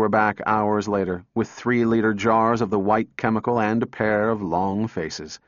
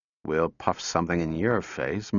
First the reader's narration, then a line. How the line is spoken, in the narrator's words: muttered Donovan